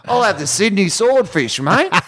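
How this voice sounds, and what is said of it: Poor put-on Australian accent. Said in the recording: “Put a bit more Outback on there. That was the worst accent I've ever.”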